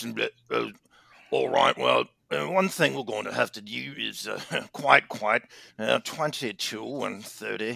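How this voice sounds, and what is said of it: Put-on British accent. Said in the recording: “it's a British thing... I like to say numbers British... my funny accent”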